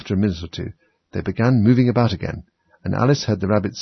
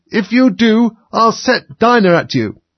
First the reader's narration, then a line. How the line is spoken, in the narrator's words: Alice called out, as loud as she could